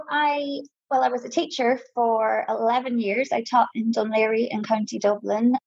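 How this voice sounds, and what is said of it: Irish Donegal accent. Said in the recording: “I'm from Donegal originally, but I've been living in Dublin now for, about 15 years. So I still got my accent”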